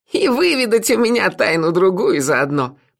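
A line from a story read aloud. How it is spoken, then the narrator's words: Mocking. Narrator (Russian): насмешливо добавила леди Сатофа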